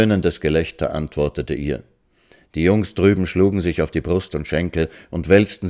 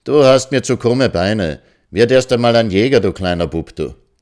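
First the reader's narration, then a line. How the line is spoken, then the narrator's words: Calling across. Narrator (German): rief sie hinüber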